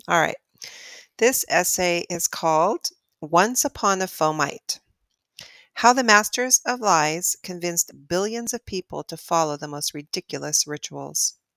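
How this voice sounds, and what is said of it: Slightly raspy voice. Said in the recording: “I have a little bit of a raspy throat today”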